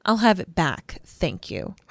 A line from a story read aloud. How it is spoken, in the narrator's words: said Luna coldly